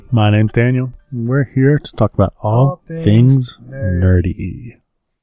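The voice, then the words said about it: Deep radio announcer voice. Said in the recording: “I got my radio voice on... Gotta have a radio voice.”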